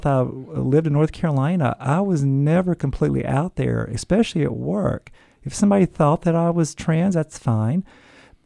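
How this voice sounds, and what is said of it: Southern US accent. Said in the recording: “As you can tell from the accent, I'm from the South.”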